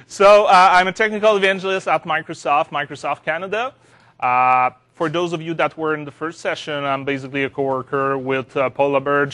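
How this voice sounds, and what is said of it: French Canadian accent. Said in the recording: “I'm a Francophone. I'm coming from Montreal, from Quebec. ... You're just going to love my accent.”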